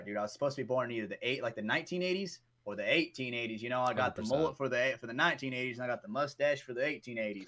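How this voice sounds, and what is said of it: Shifting put-on accent. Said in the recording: “for some reason, your accent's changing.”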